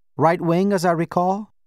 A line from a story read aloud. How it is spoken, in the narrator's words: Baba said